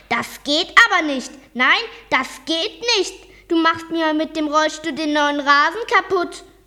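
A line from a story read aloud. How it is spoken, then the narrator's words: Shouted loudly. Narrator (German): rief laut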